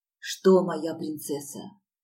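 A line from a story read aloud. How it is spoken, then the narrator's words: Hoarse rasp. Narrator (Russian): прохрипел он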